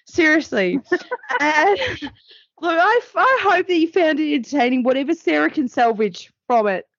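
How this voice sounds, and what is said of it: Voice giving out, strained. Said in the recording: “I'm losing my voice.”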